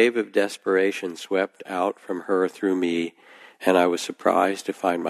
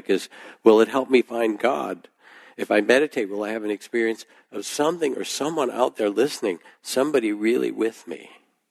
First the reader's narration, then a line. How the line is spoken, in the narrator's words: she said, her voice rising in a crescendo that bordered on real panic